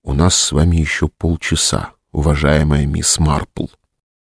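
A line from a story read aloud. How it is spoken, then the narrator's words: Whisper. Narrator (Russian): Сергей прошептал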